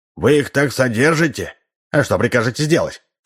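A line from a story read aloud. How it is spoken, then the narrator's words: Stern question. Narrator (Russian): строго спросил его спутник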